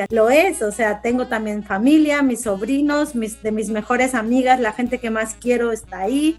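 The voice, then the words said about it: Spanish from Spain accent. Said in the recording (Spanish): “tengo mi acento de española”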